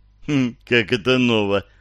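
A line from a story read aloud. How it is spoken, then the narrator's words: Sighed. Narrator (Russian): вздохнул Гарри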